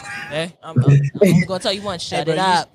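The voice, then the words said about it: Imitates her father's voice. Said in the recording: “You sound just like your father.”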